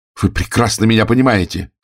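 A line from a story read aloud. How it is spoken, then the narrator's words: Angry exclamation. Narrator (Russian): сердито воскликнул я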